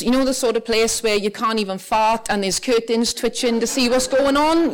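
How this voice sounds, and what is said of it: South Welsh accent. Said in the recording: “Clearly by my accent, I was not born in Northern Ireland. I grew up in the Rhondda Valleys in South Wales”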